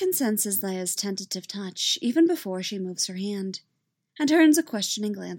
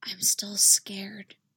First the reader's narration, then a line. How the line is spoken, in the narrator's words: whispers